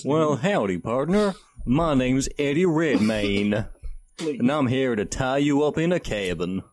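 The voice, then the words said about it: Exaggerated put-on southern accent. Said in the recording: “You can't see how weird everyone's southern accents are.”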